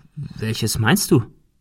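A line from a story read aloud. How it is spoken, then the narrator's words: Plain. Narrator (German): fragte er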